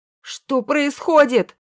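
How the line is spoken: Yelled. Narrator (Russian): завопил Андрей

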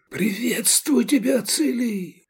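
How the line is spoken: Shouted whisper. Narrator (Russian): скричал он шепотом

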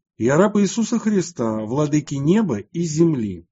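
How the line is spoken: Loud public proclamation. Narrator (Russian): Святый Мина вслух всего народа громко воскликнул

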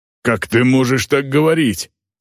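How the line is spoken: Growling. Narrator (Russian): прорычал Сайват

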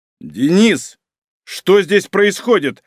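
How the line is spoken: Barking. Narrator (Russian): рявкнул Малинин

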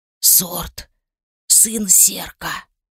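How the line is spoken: Whisper. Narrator (Russian): Следом перешел на шепот настоящий

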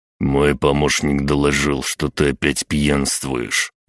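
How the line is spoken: Through gritted teeth. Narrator (Russian): процедил мужчина

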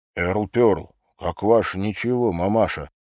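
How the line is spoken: Respectful whisper. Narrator (Russian): почтительно прошептал Тед

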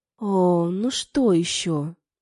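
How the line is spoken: Groan. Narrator (Russian): простонала

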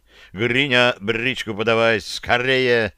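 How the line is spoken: Barked. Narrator (Russian): рявкнул

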